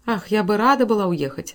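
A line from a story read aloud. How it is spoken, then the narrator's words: Sigh. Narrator (Russian): вздохнула миссис Картер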